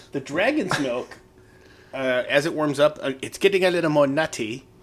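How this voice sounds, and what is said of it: Comic British movie-character accent. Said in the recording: “where did the accent come from? ... I think that's from Austin Powers.”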